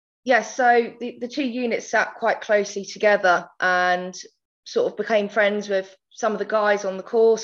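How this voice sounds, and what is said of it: Essex English accent. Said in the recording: “hence the Essex accent”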